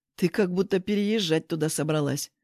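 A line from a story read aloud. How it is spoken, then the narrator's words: Grumbling. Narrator (Russian): проворчал Сережа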